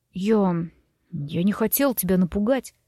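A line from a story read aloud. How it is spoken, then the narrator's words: Mumbling, head lowered. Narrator (Russian): пробормотал он, опуская голову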